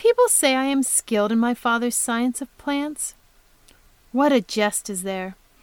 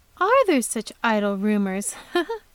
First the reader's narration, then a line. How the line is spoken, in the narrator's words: asked Beatrice, with the music of a pleasant laugh